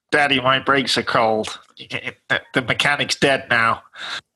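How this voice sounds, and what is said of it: Imitates another person's voice. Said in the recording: “That's quite a scary impersonation there”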